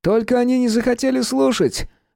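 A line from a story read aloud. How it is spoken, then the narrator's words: Loud sobbing. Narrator (Russian): громко всхлипывая, проговорил Юкия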